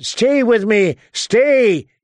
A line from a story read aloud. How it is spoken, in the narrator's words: he shouted